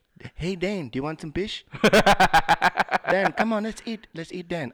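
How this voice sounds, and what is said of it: Put-on Filipino accent. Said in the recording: “Can I hear more of your Filipino accent? Can you say, Daniel, do you want some fish?”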